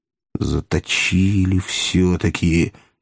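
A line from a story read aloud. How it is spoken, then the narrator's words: Yawning. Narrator (Russian): сказал он, зевнул еще раз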